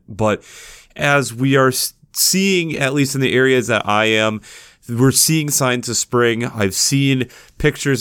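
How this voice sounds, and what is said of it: Slightly off, congested voice. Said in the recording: “getting through kind of a little head cold ... my voice sounds a little bit off”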